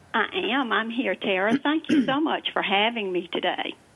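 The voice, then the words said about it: Southern American accent. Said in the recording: “you would have a Southern accent”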